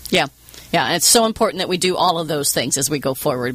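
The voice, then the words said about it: Southern American accent. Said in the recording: “my Southern accent... when I get really tired, it really comes out... I can't seem to get rid of this accent”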